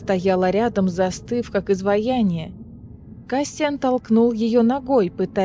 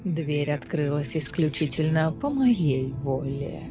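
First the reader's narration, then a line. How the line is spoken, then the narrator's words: Purred. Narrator (Russian): промурлыкал Лантис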